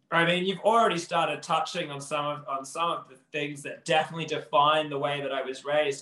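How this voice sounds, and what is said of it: Australian accent. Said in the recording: “you can't mistake that Australian accent.”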